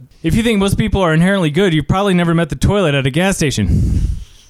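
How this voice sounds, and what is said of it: Very fast talking. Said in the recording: “Fast talker. I got to be like the guy from Micro Machines ... That's pretty good. But I think you could do it faster.”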